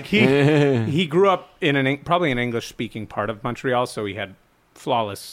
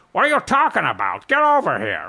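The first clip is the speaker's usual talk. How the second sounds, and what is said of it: Impression of speaker's father. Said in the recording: “whenever I do an impression of my dad”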